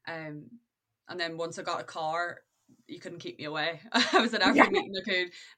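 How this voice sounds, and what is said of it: Northern Irish accent. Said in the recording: “accent, she's from Northern Ireland”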